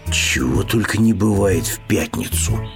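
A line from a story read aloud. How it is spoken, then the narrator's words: Bear cub's mumble. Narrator (Russian): пробормотал медвежонок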